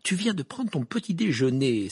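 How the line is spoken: Irritated exclamation. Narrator (French): s'exclama Hermione d'un ton irrité

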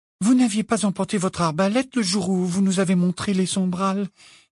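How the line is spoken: Timid. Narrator (French): dit timidement Hermione

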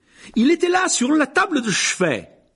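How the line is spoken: Screaming. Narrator (French): hurlait-il

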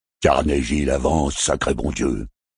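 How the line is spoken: Grumbling. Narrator (French): grommelait H8

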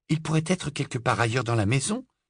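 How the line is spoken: Optimistic tone. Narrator (French): dit Hermione d'un ton optimiste

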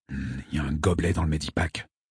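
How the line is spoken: Giant's rumbling growl. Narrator (French): gronda le géant

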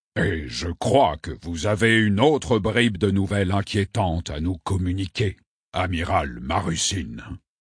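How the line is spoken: Growling. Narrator (French): gronda Lourdussamy

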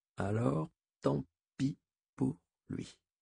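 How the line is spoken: Murmured. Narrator (French): murmura-t-elle

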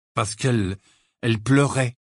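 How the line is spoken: Dejected tone. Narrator (French): reprit Harry d'un ton abattu

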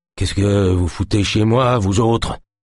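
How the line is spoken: Stammering. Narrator (French): bredouilla-t-il

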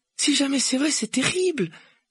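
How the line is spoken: Exclaimed. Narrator (French): s'écria Hermione

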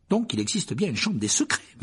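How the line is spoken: Murmured. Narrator (French): murmura Harry

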